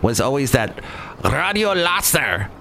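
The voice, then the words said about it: Exaggerated Spanish accent. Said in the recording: “That's my worst Spanish accent ever.”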